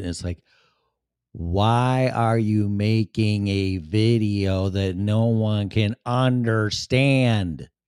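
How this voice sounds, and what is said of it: Chicago accent. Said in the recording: “my accent, my Chicago accent.”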